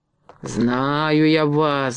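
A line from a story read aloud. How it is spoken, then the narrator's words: Angry muttering. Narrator (Russian): бормотал он сердито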